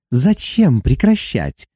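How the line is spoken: Purring. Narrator (Russian): промурлыкала Гиана

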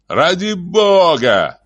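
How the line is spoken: Shout. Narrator (Russian): крикнул Саймон

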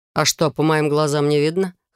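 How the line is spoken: Mocking snort. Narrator (Russian): хмыкнул он, явно издеваясь надо мной

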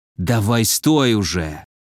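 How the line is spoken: Hiss close to ear. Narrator (Russian): прошипел в ухо

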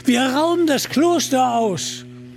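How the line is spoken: Called out. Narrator (German): rief Little John

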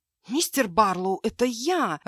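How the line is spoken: Angry hiss. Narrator (Russian): рассерженно зашипела

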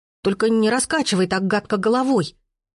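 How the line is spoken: Frightened child's exclamation. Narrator (Russian): испуганно воскликнул малютка

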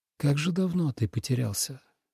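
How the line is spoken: Whisper. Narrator (Russian): прошептал Лен

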